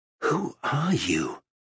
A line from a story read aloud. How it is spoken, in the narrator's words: He asked quietly, controlled fear in his voice